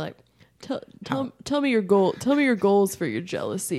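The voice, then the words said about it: Imitates another person's voice. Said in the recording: “That's my Johnny Walker impression.”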